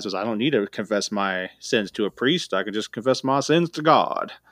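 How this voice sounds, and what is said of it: Put-on accent quoting others. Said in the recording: “Often with that exact accent.”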